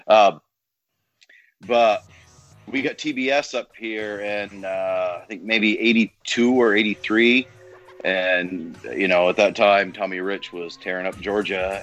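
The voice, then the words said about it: Northern Vermont accent. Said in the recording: “I'm from northern Vermont. I'm about 2 miles from the Canadian border, if you can't tell by the accent”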